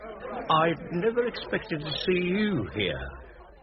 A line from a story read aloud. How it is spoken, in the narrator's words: said with a loud, coarse laugh